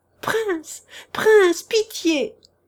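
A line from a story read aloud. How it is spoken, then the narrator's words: Desperate shout. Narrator (French): cria Tchitchikov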